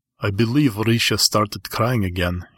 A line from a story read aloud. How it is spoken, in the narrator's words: said with a chuckle